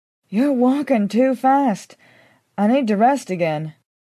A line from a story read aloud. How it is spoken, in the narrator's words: I said, panting